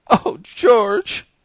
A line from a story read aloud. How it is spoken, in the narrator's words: she began, sobbing